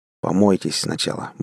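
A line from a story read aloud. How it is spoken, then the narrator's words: Gruff grunt. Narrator (Russian): буркнул я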